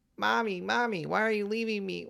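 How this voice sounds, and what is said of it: Exaggerated crying imitation of another's voice. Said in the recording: “this is where we get the Roseanne Barr crying ... Here's my impression ... if that was excruciating to our audience, that's how excruciating it was”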